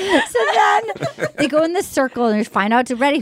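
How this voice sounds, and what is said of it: Usual voice. Nothing is said of it.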